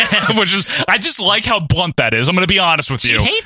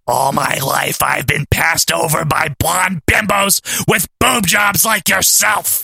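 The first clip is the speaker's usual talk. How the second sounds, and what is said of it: Imitates another person's voice. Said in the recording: “do you like my Luna impression? ... Yeah, it's pretty good.”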